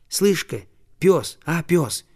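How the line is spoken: Soft call. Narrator (Russian): тихонько позвал он

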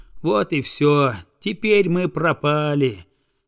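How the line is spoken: Sigh. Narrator (Russian): вздохнул он

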